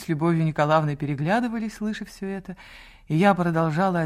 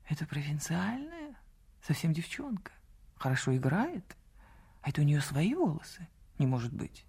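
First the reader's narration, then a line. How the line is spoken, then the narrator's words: Whispering. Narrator (Russian): шепот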